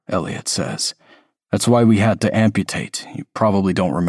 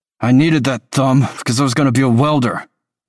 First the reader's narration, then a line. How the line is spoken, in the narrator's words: Tolliver snaps